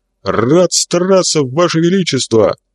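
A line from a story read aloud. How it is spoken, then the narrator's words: Barked shout. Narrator (Russian): гаркнул Савелий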